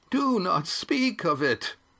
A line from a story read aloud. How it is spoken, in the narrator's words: said Oron, his voice so intense that it quavered